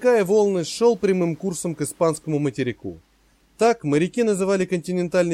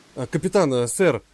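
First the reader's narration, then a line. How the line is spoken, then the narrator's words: Mumbling. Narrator (Russian): забормотал Грофс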